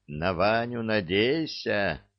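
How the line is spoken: Thoughtful drawl. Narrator (Russian): задумчиво протянула Василиса

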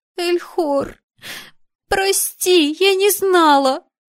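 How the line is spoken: Sobbing. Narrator (Russian): всхлипывала она

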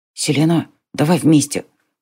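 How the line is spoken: Whisper. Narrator (Russian): прошептал Мика

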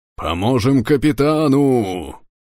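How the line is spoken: Distant roar. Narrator (Russian): проревел метрах в 12 от нас Берг

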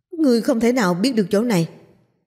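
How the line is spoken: Loud shout. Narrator (Vietnamese): Tên mặt sắt hét to

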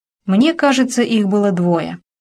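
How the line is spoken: Plain. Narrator (Russian): сказал Мэтт

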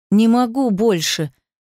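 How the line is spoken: Loud moan. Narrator (Russian): застонала громко

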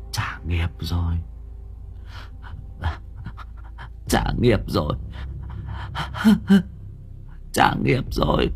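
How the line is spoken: Bitter pale muttering. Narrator (Vietnamese): Mồm miệng của bà lúc này bợt bạt cả đi, đắng ngắt lẩm bẩm

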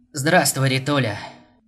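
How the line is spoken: Creaky voice. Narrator (Russian): проскрипел он

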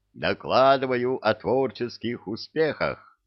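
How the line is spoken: Joyful report. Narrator (Russian): Радостно доложила центральная

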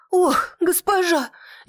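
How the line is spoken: Frightened girl lamenting. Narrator (Russian): испуганно вздрогнула девушка причитая

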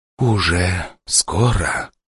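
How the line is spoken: Whisper. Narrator (Russian): прошептала Асакура

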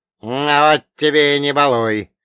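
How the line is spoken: Displeased grumble. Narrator (Russian): недовольно проворчал Ольга Богданович

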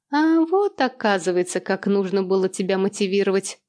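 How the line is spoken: Laughing. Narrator (Russian): посмеялась

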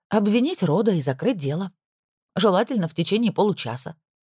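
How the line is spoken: Feigned calm. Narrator (Russian): наигранно спокойно отозвалась Пенелопа

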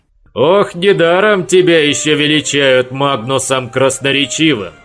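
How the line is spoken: Chuckling. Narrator (Russian): хохотнул Хуга

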